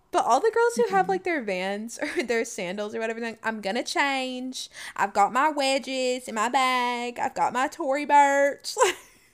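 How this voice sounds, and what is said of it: Put-on accent. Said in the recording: “you got the accent straight down.”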